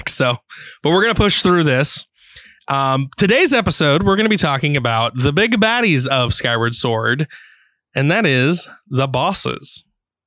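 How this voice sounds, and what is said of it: Hoarse, sick-sounding voice. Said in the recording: “I did lose my voice,... I'm still a little sick.”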